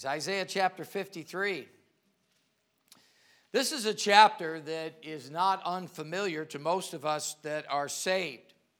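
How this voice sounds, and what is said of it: Speaks with a regional accent. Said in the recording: “you can be amused at my accent ... as we're from different parts of the world, we all have an accent ... you can just be amused by the way I say things”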